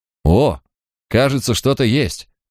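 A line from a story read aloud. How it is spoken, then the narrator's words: Exclamation. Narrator (Russian): воскликнул он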